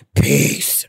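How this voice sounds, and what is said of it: Exaggerated very deep voice. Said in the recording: “in my deepest pan voice,”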